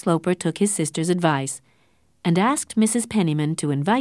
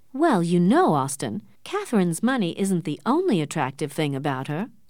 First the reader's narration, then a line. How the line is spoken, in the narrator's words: said Mrs